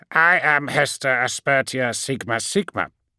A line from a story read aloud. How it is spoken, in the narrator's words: said, simultaneously broadcasting her name, biography, and rank via data squirt and binaric screech